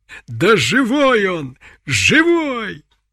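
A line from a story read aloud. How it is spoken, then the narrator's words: Fierce joyful shout. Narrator (Russian): крикнула она с яростным восторгом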